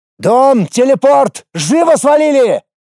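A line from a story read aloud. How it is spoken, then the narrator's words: Shouting. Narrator (Russian): кричал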